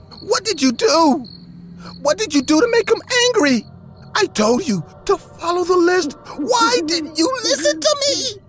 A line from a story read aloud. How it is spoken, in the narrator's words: screamed in pain